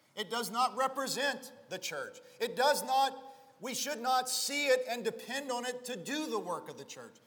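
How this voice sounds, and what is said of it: Fervent, shouting preacher delivery. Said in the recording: “I'm getting on a soapbox and I'm shouting a little bit, but you understand the fervor I feel”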